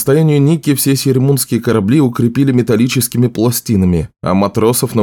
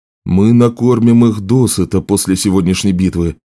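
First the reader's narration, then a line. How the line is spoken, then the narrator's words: Plain. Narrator (Russian): сказал Отто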